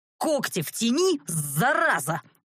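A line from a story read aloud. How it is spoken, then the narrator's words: Dragon's roar. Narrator (Russian): взревел дракон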